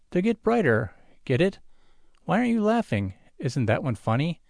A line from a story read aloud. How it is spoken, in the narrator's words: Jot sighs gustily